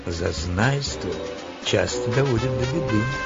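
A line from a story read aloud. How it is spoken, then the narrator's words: Gentle reproach. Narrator (Russian): Листар мягко упрекнул его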